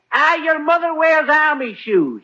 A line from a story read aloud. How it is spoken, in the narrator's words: he yells